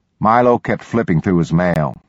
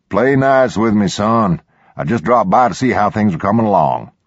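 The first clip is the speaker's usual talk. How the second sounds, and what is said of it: Twangy hard-edged German Texan accent. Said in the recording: “spoke with a twangy, hard-edged accent of a German Texan, someone who'd grown up in the hill country around Fredericksburg”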